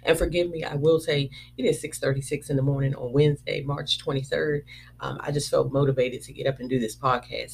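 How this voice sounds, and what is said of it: Crackly, deep morning voice. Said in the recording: “it in my crackly voice this morning ... excuse the Barry White”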